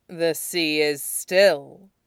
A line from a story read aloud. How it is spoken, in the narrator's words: Makoto sneered